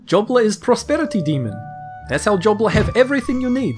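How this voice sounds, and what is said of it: Put-on character accent. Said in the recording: “is that accent offensive ... including this accent”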